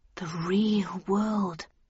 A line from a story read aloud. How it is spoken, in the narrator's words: I murmured out loud